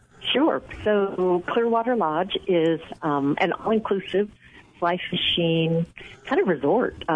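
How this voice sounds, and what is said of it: Smooth radio-style voice. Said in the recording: “you got a radio voice. You're charming.”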